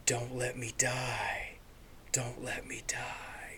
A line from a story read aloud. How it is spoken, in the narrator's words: being whispered